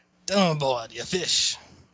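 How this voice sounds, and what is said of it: Character voice with a thick accent. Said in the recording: “Your accent is just a little...”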